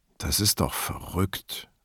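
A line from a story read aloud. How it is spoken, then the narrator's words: Grumbling mutter. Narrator (German): brummte der Größere von Borgheses Leuten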